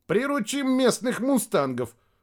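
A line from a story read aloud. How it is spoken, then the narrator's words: Chuckling. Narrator (Russian): хохотнул Рядошкин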